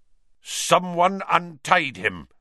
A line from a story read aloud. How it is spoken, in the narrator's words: the executioner was snarling